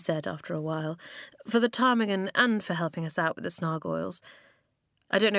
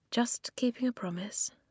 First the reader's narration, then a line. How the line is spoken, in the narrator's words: Eska said quietly